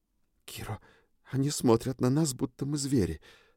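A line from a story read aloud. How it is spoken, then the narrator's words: Whisper. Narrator (Russian): опять зашептала Триш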